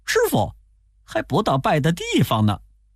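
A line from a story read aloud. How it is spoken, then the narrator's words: Laughing. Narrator (Chinese): 悟空笑着说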